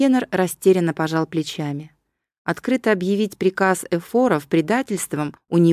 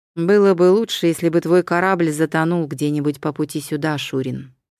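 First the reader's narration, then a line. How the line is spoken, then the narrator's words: Plain. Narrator (Russian): сказал Еврибиад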